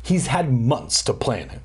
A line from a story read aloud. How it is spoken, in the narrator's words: Dan exclaimed